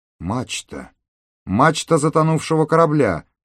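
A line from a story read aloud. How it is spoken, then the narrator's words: Exclaiming. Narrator (Russian): воскликнул Миша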